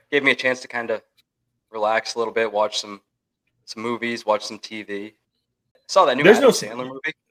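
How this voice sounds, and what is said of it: Sick, rough-sounding voice. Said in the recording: “You sound terrible. ... I was a little bit under the weather this week.”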